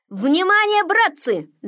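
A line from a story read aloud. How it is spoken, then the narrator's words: Shout. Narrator (Russian): закричал он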